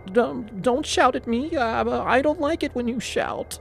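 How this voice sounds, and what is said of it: Whining, trembling voice. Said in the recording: “she whined, her lips trembling”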